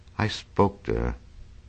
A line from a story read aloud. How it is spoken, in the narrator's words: he muttered after a long silence